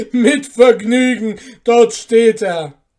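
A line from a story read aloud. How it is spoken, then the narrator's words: Laughing call. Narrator (German): rief der Barbier lachend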